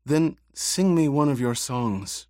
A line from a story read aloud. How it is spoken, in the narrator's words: Cheney pleaded